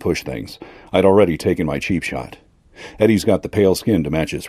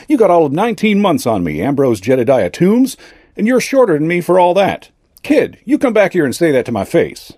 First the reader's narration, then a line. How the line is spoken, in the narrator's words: Eddie shouted